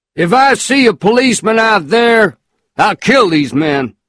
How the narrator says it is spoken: Mister shouted back

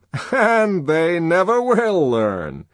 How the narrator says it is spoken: he added, and laughed, as though he had somehow scored a personal triumph over the electrocuted animals

